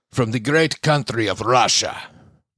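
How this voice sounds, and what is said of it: Bad put-on Russian accent. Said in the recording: “Terrible accent there. My apologies to regular Russian people.”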